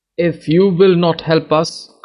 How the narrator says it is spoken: cried an old woman

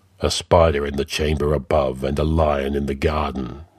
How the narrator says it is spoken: muttered Conan

